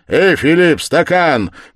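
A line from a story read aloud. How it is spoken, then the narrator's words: Shouting. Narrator (Russian): крикнул Свидригайлов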